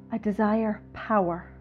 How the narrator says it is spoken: gasped in my all-consuming lust for her

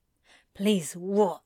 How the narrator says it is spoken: Crowley grunts

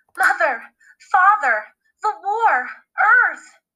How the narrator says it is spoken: she sobbed

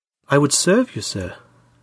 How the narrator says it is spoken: said gently

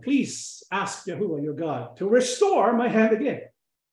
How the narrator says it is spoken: The king cried out

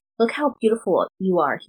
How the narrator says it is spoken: he whispers against my skin

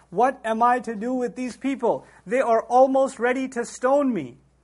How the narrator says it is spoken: Moses cried out to the Lord

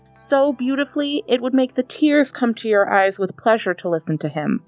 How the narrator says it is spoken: cried Joachim

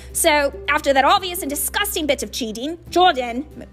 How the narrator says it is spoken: Professor McGonagall growled

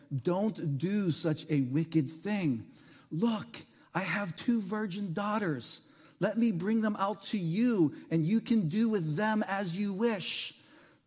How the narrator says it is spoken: begged

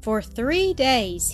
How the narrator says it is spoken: he said

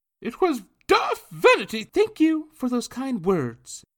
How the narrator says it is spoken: Anna loudly blurted out, interrupting Miss Puddlemeyer's clucking

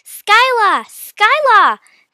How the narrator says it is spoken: Mia called out loudly

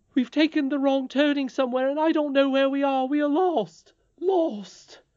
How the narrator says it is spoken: gave a great cry, and said

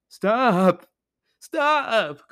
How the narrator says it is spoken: cried the skull

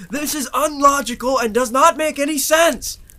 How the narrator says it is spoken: Ebony bellowed out to the air

